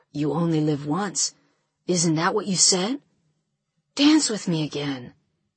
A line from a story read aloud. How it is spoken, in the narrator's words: Alex whispers in my ear